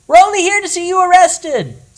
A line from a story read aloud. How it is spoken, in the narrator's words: somebody shouted from the back of the crowd